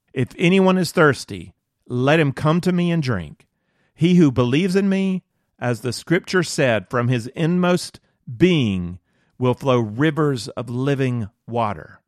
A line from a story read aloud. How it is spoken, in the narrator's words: Jesus cried out, saying